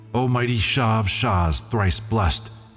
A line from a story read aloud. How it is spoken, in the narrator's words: loud the vision shrieked and struck its breast